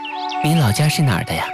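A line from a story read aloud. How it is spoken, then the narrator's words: Sighing question. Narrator (Chinese): 李太后感叹着，接着又问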